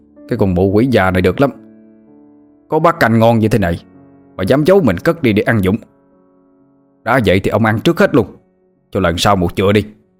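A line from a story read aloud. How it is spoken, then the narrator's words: Hissed through teeth. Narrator (Vietnamese): Nó rít lên qua kẽ răng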